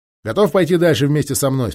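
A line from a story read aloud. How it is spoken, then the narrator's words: Plain. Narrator (Russian): спросил Джейк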